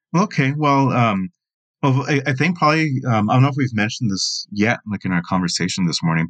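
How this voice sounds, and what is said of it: Slight accent. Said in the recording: “perhaps my listeners have detected a little accent in the way that you said Latinos”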